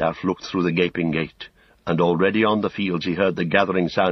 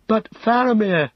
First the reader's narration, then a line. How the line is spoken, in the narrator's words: cried Pippin